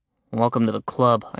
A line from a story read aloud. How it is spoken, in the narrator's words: muttered